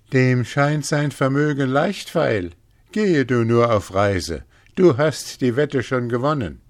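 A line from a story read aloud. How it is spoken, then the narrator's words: Laughing heartily. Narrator (German): lachte sie herzlich mit ihm und sprach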